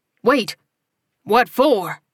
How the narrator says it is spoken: the cowboy barked

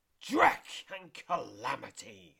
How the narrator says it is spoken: screeches the painted egg

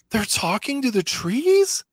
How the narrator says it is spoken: Completely mystified by this answer, Omega gasps

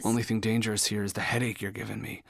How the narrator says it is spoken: mumbled

